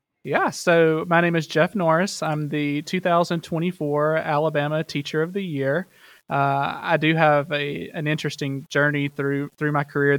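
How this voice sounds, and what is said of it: Heavy Alabama Southern accent. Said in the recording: “I am Alabama through and through, so you'll hear it in my voice and in my accent ... the accent heavy”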